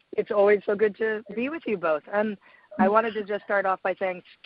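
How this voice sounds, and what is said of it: Raspy, hoarse voice. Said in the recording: “raspy voice. I'm sort of slowly getting over a cold, so and some laryngitis,”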